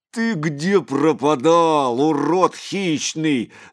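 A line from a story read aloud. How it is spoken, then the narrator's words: Shouted. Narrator (Russian): закричал Митяй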